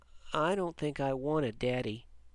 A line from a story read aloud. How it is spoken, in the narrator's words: he said so softly she barely heard him